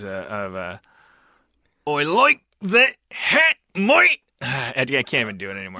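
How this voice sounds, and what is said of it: Strained attempt at Australian accent. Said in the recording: “I'm gonna try to master the Australian accent ... That sounded like you were in so much pain ... It sounded like you were passing, like, a kidney stone.”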